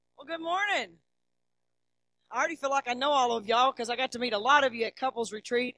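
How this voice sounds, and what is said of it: Arkansas Southern accent. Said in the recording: “this isn't a California accent. I was raised in Arkansas.”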